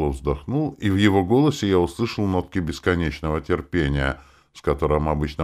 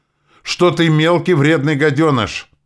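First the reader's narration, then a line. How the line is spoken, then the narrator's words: Loud yell in ear. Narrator (Russian): Громко такое ощущение, что в самое ухо проорал Вук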